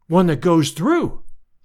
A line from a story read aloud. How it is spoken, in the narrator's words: I cried